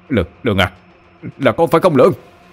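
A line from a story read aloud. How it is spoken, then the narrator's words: Certain shout. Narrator (Vietnamese): Ông bối như đã xác định mà hét lên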